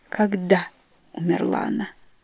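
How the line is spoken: Barely audible hesitant question. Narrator (Russian): еле слышно спрашивает он после долгого молчания

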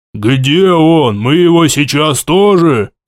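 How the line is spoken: Belligerent roar. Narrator (Russian): воинственно взревел Толтитур

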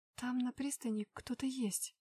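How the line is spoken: Frightened whisper. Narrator (Russian): шепнула испуганно

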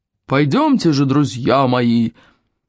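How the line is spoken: Booming heroic bass. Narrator (Russian): возгласил Джош басом супергероя

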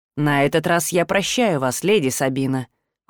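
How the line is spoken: Cold clipped husband. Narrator (Russian): холодно отчеканил муж

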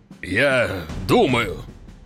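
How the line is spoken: With a snort. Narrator (Russian): хмыкнув, проговорил начальник

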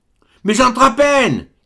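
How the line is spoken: Young woman shouting. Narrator (French): cria la jeune femme

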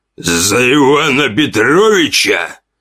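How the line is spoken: Roar. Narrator (Russian): проревел он

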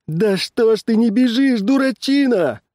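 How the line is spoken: Shout. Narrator (Russian): закричал окружной агент

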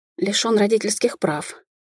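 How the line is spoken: Breathed out. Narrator (Russian): выдохнула я

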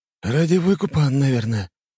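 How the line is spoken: Uncertain reply. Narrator (Russian): Гриша ответил как-то неуверенно

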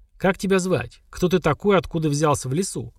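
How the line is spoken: Stern interrogating question. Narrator (Russian): строго спросила Лера, входя в образ следователя

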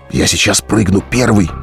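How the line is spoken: Whisper into ear. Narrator (Russian): прошептал он ей на ухо

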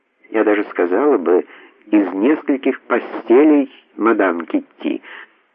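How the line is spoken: Thoughtful addition, then laughter. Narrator (Russian): подумав, добавила она и опять рассмеялась

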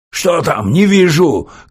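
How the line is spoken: Shouting. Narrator (Russian): крикнул профессор

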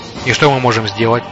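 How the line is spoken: Plain. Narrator (Russian): спросил он Сухмета

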